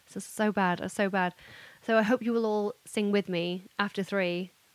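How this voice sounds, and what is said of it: Hoarse, strained voice. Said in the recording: “I'm also losing my voice already, can you tell?”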